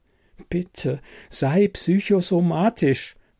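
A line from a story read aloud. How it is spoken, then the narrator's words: Soft pleading. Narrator (German): flehe ich leise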